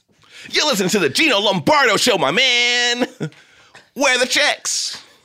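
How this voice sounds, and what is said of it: Exaggerated classic radio host voice. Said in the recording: “I don't know what that voice you were doing was ... my classic radio show ... I used to do that voice”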